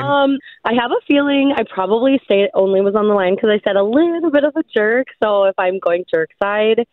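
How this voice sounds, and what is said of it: Scratchy, cracky voice. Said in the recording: “Sorry about my voice... it's a little scratchy... it's just a little cracky”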